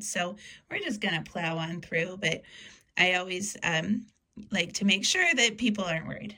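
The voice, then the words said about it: Strained, worn-out voice. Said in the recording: “apologize for my voice. ... I'm not sick. I went to a concert and I maybe sang along a little bit. ... hoping it would get better and it didn't.”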